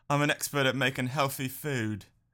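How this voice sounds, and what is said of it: Impression of a celebrity chef. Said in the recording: “Good impression.”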